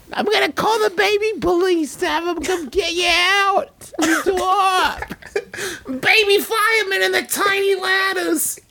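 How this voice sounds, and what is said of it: Baby-like character voice. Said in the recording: “now I sound like a baby hairdresser”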